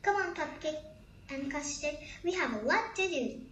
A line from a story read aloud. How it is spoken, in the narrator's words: Strawberry said, jumping up excitedly